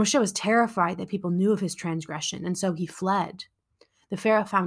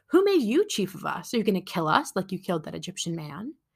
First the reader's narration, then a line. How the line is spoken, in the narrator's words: the two men sneered at him and asked